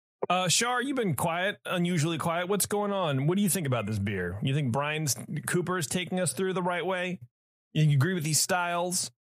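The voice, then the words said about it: Shouting loudly. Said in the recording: “Why am I yelling at you? I'm shouting.”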